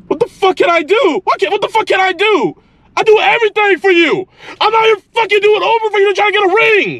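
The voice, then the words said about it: Yelling angrily. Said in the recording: “Why are you yelling?”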